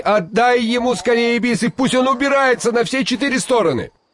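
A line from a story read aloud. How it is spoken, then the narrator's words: Frightened shout. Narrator (Russian): Шигайбай испугался, что Алдар-Косе еще задержится в его ауле, и крикнул жене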